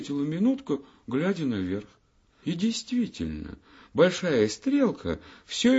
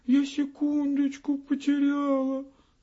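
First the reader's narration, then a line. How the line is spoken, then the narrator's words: Sobbing small voice. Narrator (Russian): всхлипнула минутка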